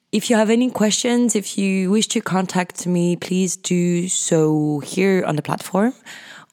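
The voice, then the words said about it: French accent, sometimes British-sounding. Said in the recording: “my accent, which is quite hard to, I don't know, sometimes it sounds very French and sometimes it doesn't. And it sounds more British”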